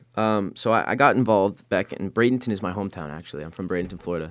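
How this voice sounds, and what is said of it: Rough, slightly hoarse voice. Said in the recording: “I did wake up right before this interview, so I'm sorry if my voice is a little rough. I keep having to clear it.”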